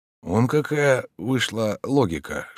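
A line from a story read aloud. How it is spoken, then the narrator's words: Whispered. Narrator (Russian): шептал он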